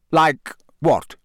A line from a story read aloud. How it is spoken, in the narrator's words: said Moody sharply